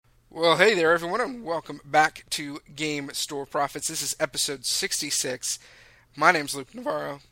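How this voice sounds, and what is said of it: Hoarse, cracking voice. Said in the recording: “I think my voice has already cracked three times in, like, the last 6 seconds... I have a massive sore throat.”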